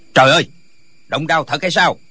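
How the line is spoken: Crying out. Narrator (Vietnamese): Lệnh Hồi Xung la lên

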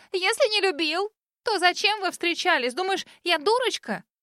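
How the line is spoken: Accusing shriek. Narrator (Russian): Мия обвиняюще завопила

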